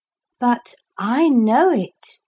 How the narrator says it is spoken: said Philip, and at once breathed the word

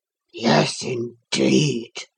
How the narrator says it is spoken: said Max with a deep sigh

